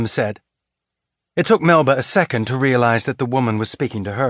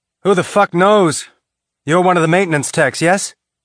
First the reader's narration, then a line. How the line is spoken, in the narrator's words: the woman said sharply